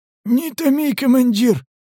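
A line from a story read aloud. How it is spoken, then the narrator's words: Joins in. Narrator (Russian): подключился Сиплый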